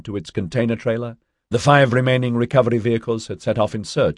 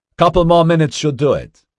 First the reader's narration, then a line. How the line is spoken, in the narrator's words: the driver, Cam Tong, called out